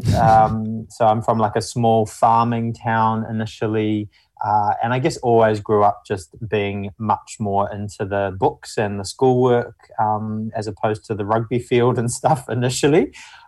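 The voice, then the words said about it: Mumbly New Zealand accent. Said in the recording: “I'm initially from New Zealand. You can probably tell from the mumbly accent.”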